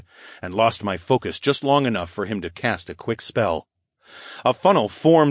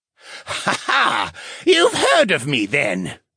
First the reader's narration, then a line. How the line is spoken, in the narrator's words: he laughed